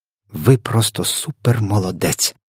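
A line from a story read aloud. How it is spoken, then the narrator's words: Whisper. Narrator (Ukrainian): прошепотіла Софія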